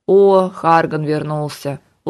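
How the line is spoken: Weary, unsurprised statement. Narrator (Russian): Устало и без особого удивления констатировал Кайден

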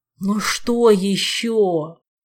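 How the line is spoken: Exhausted groan. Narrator (Russian): Измученно простонал Витька

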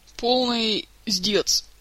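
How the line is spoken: Sighing. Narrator (Russian): вздохнул Кантер

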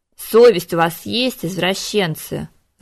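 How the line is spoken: Angry growl. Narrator (Russian): разгневанно прорычал Конгрем

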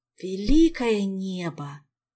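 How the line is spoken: Miserable groan. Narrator (Russian): застонал несчастный вождь

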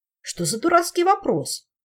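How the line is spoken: Indignant interruption. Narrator (Russian): возмущенно перебил его Тарьен

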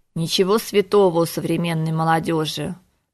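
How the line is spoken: Disapproving grumble. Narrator (Russian): проворчал мэтр Алехандро, неодобрительно

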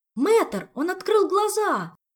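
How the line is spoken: Sudden cry. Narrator (Russian): вскрикнул Мафей

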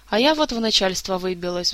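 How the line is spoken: Sigh. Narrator (Russian): вздохнула Эльвира

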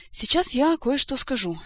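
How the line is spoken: Sighing king. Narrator (Russian): вздохнул король

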